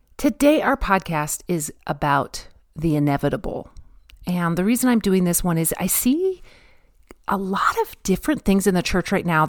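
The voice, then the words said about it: Deep early-morning radio DJ voice. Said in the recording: “It's quite early, so my voice has that really cool kind of DJ sound to it.”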